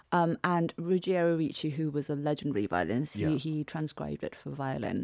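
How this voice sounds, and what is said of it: Lovely British accent. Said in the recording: “you speak with such a lovely British accent ... You out-British my accent by like 10 times”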